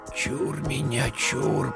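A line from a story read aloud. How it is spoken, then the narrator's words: Whisper. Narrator (Russian): прошептал Игнат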